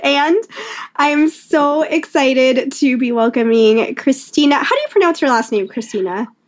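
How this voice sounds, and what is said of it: Slightly scratchy voice. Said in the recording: “I'm getting over a cold, so my voice is like a little scratchy”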